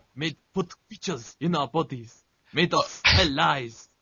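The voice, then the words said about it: Bad put-on Russian accent. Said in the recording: “the bad Russian accent”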